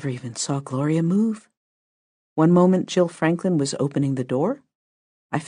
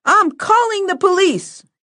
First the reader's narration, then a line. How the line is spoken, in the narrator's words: yelled a woman, presumably Deirdre, from the nurse's station